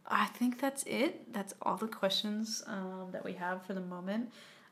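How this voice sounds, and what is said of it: Tired, strained voice. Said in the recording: “my voice is tired, my throat is tired from talking so much”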